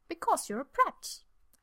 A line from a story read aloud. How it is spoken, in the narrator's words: Emrys says cheerfully